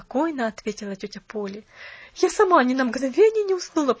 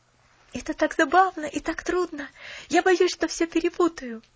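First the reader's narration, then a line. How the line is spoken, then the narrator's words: Fervent whisper to herself. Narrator (Russian): с жаром прошептала она про себя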